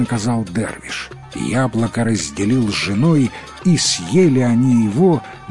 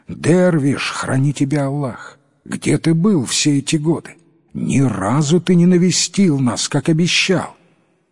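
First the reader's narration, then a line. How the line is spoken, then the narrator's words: Exclamation. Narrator (Russian): Падишах воскликнул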